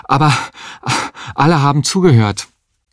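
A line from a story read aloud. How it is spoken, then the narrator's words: Panting. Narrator (German): sagte er keuchend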